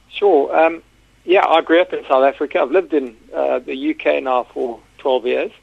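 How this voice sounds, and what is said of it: South African accent. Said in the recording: “by your accent we can tell that you're from South Africa”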